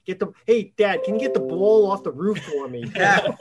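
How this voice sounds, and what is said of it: Brooklyn accent. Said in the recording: “I actually still had a Brooklyn accent”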